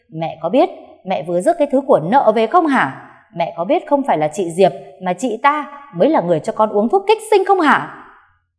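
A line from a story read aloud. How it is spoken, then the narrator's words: Furious screaming. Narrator (Vietnamese): Cô Bích gào lên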